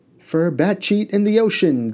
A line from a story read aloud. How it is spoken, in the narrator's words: they exclaimed